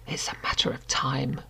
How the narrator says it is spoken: she muttered, almost to herself

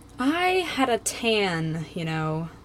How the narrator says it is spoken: Lisa sighs wistfully

